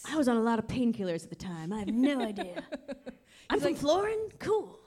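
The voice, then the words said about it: Stoner-style imitated voice. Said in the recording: “my Stephen King is a stoner ... that's why I'm doing the voice”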